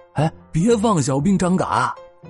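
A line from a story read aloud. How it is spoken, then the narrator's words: Shout. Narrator (Chinese): 还有人喊道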